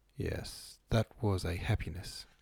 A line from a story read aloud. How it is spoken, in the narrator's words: said in her quiet voice with its deep chest notes